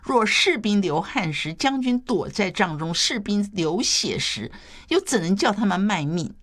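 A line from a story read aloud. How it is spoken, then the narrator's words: Smiling. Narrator (Chinese): 谢玄笑着回答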